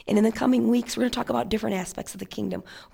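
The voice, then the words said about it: Strained, failing voice. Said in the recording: “you can see my voice is going”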